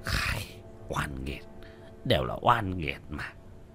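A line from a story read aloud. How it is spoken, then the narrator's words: Muttering. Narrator (Vietnamese): Lão Quách lẩm bẩm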